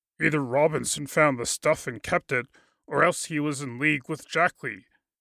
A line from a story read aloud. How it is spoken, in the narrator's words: said Applegate